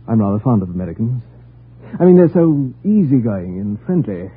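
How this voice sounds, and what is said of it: British accent. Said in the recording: “Are you British? ... Your accent”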